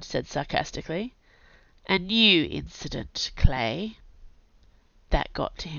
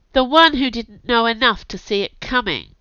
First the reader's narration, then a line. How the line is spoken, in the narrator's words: she replied sharply